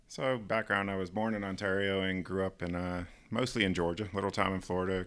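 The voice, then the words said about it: Slight American accent, rancher-like. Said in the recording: “I can hear a bit of an American accent there ... Kind of works with that accent ... You sound like a rancher.”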